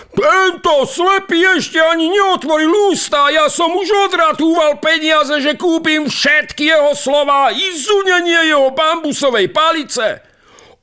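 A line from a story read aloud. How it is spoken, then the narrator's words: Shouting. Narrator (Slovak): kričí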